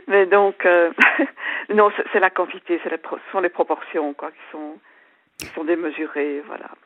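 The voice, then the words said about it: Slight Belgian French accent. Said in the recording (French): “votre petit accent me fait penser que chez vous il y a des bons chocolats ... chocolats belges”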